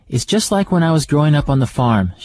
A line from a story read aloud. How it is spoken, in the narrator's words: she says